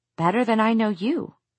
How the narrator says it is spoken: Clary said coldly

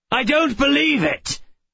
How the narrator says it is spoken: Call shouted

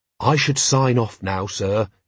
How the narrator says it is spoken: he said gently

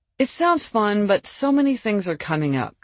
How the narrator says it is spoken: Jamie sighed

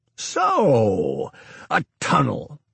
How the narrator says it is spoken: Niemeyer exclaimed

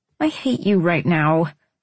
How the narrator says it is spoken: I groaned

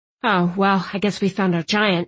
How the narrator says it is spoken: I grumbled

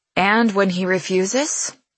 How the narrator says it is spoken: I grumble to them both

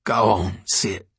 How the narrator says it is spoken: she croaked

